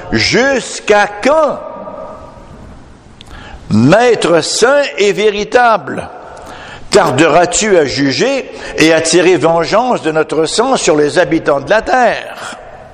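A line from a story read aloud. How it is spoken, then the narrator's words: Loud collective cry. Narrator (French): Ils crièrent d'une voix forte en disant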